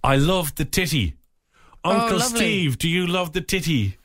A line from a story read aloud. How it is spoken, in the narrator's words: shouted